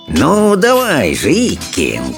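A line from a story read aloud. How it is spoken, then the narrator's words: Hissing. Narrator (Russian): шипел он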